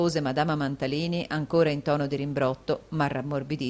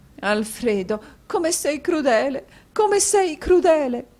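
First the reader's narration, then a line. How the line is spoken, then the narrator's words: Sobbing. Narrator (Italian): disse Madama Mantalini singhiozzando a quel terribile quadro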